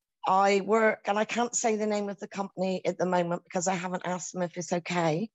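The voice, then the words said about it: British English accent. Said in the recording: “I live in the UK, hence my accent. I probably sound like a pirate.”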